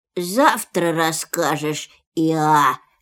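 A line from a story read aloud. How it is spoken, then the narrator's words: Sleepy voice. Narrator (Russian): сказал Пух сонным голосом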